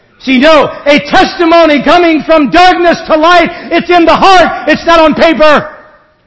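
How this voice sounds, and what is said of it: Amish Ohio regional accent. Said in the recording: “an Amish family ... Holmes County, Ohio, in case you haven't picked up the accent yet. It's not like it used to be.”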